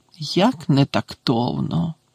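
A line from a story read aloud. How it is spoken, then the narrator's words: Muttered. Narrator (Ukrainian): пробурмотіла вона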